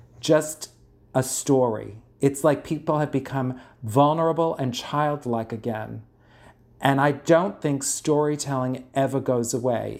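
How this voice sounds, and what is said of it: Bronx accent. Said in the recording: “my horrible Bronx accent”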